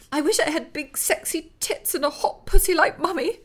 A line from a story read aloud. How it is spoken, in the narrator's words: she blurted suddenly, her voice cracking